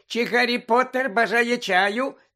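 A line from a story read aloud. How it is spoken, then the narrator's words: Loud squeak over sobbing. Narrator (Ukrainian): запищав він голосно, аби перекричати рюмсання Вінки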